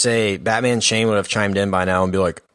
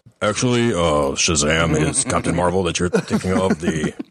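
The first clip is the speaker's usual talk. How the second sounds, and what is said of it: Failed deep gravelly Batman voice. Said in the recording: “That's a bad Batman chain. I can't do a voice that deep... I sound like, hey boo boo. It's like Yogi Bear or something.”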